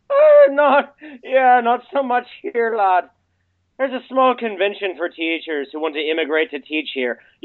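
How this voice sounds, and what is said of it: Strong Irish accent. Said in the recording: “That's quite an accent you got there ... I'm from Dublin”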